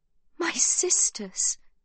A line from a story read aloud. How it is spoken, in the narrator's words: she breathes, now gripped by a fear so strong her voice is barely audible